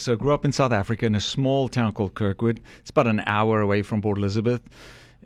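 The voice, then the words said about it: South African accent. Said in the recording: “you don't have a Southern accent. You have a Southern accent... I'm from the Deep South... South Africa”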